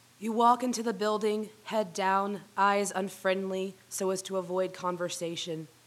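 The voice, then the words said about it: Husky voice with a cold. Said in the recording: “I did get my cold from her ... I'll be impersonating a jazz singer”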